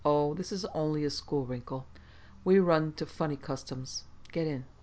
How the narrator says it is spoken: Hoag chuckled and said

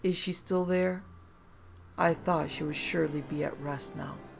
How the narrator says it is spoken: she simply sighed and said

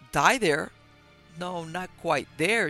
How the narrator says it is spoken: she said

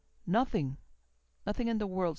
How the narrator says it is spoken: said Fleet, speaking very quickly and thickly

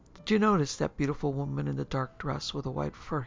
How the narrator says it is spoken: he asked

